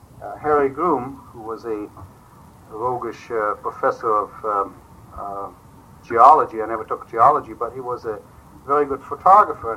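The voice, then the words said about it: German accent. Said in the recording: “my German accent. He tried hard. Unsuccessfully, obviously.”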